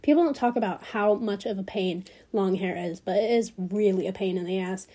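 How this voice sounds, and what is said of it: Slightly raspy, congested voice. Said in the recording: “Sorry that I'm a little raspy. I'm still getting over my cold. ... I'm just a little congested, just a little bit.”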